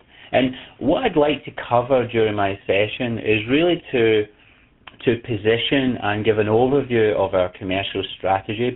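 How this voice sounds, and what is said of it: Scottish accent. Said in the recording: “apologies about my accent. You can hear I'm Scottish.”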